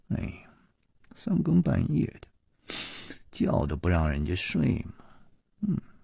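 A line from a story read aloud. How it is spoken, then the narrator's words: Mumbling grumble. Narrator (Chinese): 夜里还喃喃地嘀咕着说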